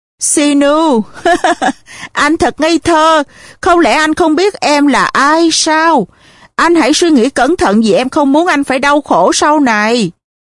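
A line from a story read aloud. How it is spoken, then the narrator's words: Surprised, hardening, then laughing. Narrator (Vietnamese): Never có vẻ ngạc nhiên, khuôn mặt của cô chợt đanh lại nhưng rồi cô bật cười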